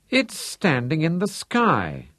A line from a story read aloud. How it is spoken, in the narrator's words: Chasseur exclaimed, discerning it at last